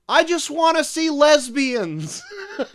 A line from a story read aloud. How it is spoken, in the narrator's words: some fan just yelled out